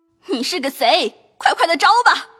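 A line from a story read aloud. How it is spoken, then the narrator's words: Angry crying shout. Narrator (Chinese): 气得环儿也哭喊起来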